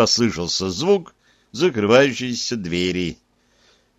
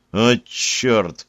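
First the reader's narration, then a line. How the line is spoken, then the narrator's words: Exasperated sigh. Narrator (Russian): вздохнул я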